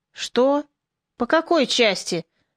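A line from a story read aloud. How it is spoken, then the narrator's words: Rude question. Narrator (Russian): грубо спросил Морозко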